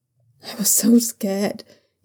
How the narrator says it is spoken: he whispered against Shunwei's neck

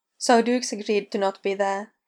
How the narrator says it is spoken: Audrey says

